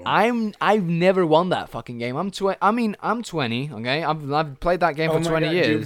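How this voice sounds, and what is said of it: Frustrated tone. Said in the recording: “hear the frustration in my voice”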